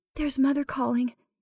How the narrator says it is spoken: Melissa said in a frightened whisper

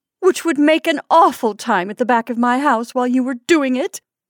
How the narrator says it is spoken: exclaimed Mrs

